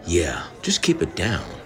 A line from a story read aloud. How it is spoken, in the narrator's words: Scott says quietly